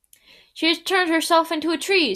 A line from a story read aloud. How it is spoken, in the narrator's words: screamed Charlton